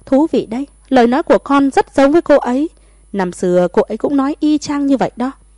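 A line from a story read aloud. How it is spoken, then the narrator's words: Bursting loud laughter. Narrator (Vietnamese): Tử Vân Khê cười phá lên thật to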